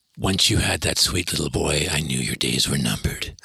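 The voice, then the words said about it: Deep low-voiced impression of another man. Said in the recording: “He's always got that great low voice ... my terrible imitation ... I think that's an incredible impression, actually.”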